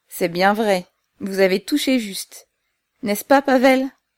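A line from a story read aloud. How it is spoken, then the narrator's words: Mocking tone. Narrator (French): il dit d'un ton railleur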